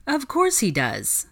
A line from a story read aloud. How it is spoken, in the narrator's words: Hermione laughed